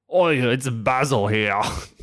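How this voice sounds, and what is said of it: Put-on, unconvincing Greek accent. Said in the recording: “what the fuck is that accent? ... my new Greek accent ... That's Greek? ... supposed to be fucking Greek”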